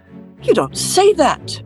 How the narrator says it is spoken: exclaimed Mr

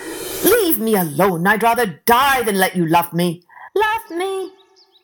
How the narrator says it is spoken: He pushed her away and he shouted

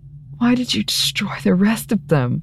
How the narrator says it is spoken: She gasped

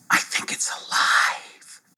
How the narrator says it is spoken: whispered

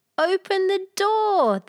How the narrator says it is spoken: all cried

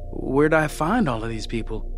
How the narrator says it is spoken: He asked sullenly

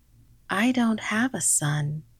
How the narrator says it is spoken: she said

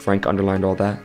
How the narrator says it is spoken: Lewis asked

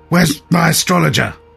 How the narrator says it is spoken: the king spluttered suddenly

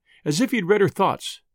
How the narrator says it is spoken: the man said quickly

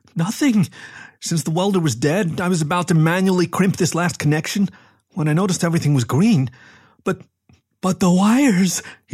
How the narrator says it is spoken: he squeaked

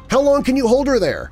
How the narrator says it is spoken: Danny yelled

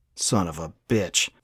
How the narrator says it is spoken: Thomas growled through gritted teeth

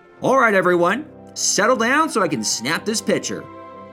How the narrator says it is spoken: Ainsley called loudly

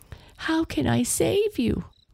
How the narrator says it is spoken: Astrid sobbed

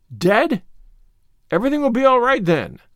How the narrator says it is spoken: cried the rosy lady jubilantly

